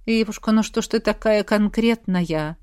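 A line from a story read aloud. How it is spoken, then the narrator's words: Tender sigh. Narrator (Russian): Вздохнул Калли с неожиданным умилением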